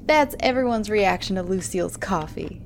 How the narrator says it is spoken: Jim said with a chuckle

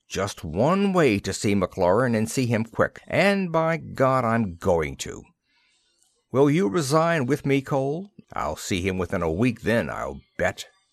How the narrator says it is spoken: said Kendall angrily

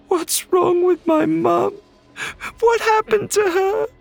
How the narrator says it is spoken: wailed

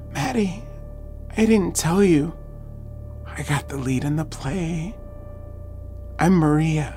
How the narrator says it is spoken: with the energy of a chemo patient and said softly

